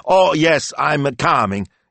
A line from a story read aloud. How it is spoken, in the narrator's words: he shouted over his shoulder